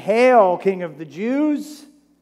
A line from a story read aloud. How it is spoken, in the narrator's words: they mocked him, saying